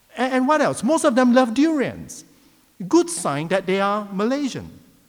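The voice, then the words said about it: Malaysian English accent. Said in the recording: “the English, it gives it away. You know, we call it Manglish. That's Malaysian and English put together ... I cannot speak Australian, my accent gives it away”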